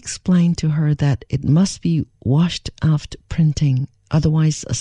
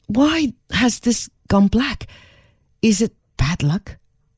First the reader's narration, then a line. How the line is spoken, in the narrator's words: She could not understand this at all and exclaimed